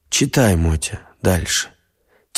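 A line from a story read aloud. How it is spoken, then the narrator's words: Quiet. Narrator (Russian): тихо сказал Степан Михайлович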